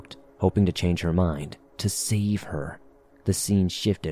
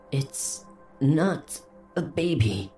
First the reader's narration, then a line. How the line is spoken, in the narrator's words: she breathed